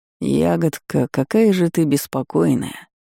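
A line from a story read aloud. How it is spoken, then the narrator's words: Sleepy mumble. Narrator (Russian): Сонно пробормотал гость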